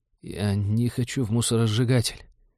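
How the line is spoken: Quiet clear whisper. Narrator (Russian): тихо, но внятно прошептал Дэн

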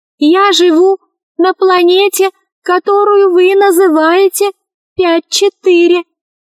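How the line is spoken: Tiny whining voice. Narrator (Russian): сказал Шар комариным голосом

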